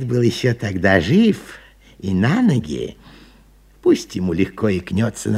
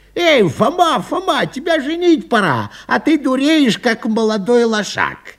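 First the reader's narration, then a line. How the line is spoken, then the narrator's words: Shouted. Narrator (Russian): Батько закричал на меня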